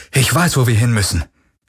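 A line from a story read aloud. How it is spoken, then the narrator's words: Calling out. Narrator (German): rief er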